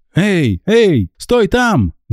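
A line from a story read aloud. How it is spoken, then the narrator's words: Shout. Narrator (Russian): закричал он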